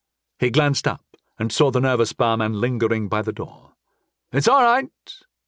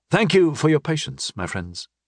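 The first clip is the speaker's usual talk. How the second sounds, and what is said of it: Authoritative voice. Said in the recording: “in my best authoritative voice.”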